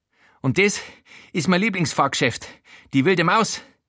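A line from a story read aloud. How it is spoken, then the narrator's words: Breathless panting. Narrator (German): keucht Schuhwalter, außer Atem von dem Rundgang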